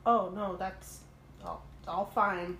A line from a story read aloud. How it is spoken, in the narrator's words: Sam says, stuttering